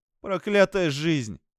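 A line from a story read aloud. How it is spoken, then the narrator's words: Exclaiming. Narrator (Russian): воскликнула она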